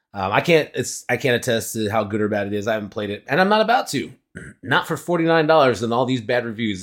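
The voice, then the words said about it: Rattly, raspy irritated throat. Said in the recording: “this ginger tea is irritating my throat, something fierce, and I'm getting this rattly, raspy thing in my throat”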